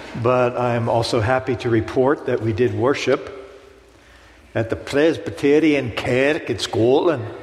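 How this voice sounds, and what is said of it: Pittsburgh accent. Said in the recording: “I still have a Pittsburgh accent”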